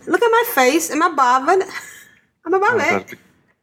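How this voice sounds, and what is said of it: Put-on London street accent. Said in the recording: “that's more London. That's, you know, down in the streets, mate. ... it's more like a Doctor Who accent”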